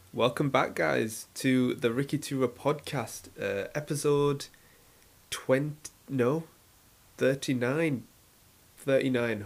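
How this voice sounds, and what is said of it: Slightly crackly voice. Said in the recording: “my voice is a bit crackly ... Hopefully, my voice will be a bit smoother”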